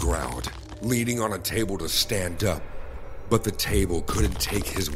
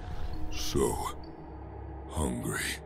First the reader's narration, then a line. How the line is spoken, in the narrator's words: Brad whispered